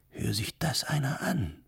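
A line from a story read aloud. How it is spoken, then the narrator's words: Whispered, woman. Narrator (German): flüsterte die Araberin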